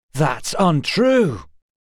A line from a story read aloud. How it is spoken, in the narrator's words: Asher laughed, a harsh and rasping rattle